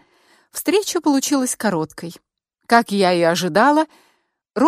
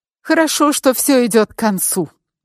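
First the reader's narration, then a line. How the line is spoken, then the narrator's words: Exclamation. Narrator (Russian): воскликнула Петра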